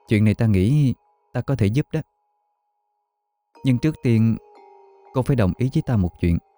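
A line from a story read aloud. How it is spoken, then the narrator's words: Soft voice. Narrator (Vietnamese): Giang Tuyết cô mới khẽ nói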